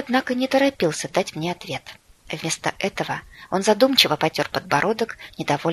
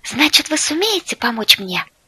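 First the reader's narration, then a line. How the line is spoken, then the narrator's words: Joyful hopeful exclamation. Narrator (Russian): радостно воскликнула я, с нескрываемой надеждой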